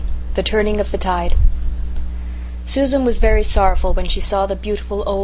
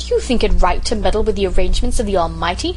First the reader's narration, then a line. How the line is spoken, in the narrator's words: she demanded indignantly